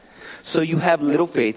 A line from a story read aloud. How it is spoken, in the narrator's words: Jesus said